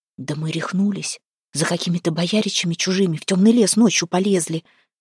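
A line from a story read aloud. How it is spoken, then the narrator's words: Doubtful whisper. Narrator (Russian): зашептала рядом с ней Миланка, томимая схожими сомнениями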